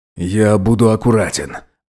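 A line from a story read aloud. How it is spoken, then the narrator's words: Hoarse rasp. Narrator (Russian): опять прохрипел Роберт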